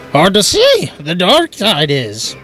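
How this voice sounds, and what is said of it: Yoda voice with Irish accent. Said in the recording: “Trying to sound Irish. Yoda was Irish all of a sudden.”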